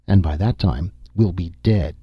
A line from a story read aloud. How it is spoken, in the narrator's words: Nasha said bitterly